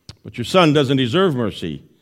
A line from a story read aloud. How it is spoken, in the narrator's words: replied Napoleon